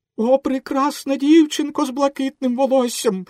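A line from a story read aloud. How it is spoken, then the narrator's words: Exclaimed. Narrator (Ukrainian): вигукнув Пінокіо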